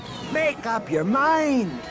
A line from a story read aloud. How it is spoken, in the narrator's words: Droma yelled back